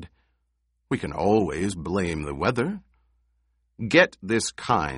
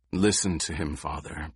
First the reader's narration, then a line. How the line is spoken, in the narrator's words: Paul said in a low voice